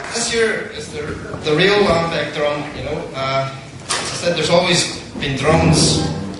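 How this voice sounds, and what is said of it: Distinct Ulster accent. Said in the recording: “the sound of that very distinct Ulster accent. Nothing at all like your Sharon Begorra stage Irish.”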